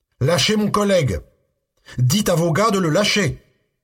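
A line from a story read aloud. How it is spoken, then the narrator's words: Yelling. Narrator (French): hurla-t-il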